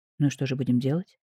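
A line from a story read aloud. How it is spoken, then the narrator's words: Quiet question. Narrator (Russian): тихо поинтересовался Зубченко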